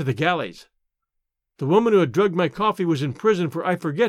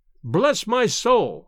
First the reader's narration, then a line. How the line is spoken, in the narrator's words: cried he, with a comic look of astonishment and vexation